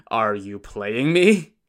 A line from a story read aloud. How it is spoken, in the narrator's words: Butcher Zheng laughed awkwardly and said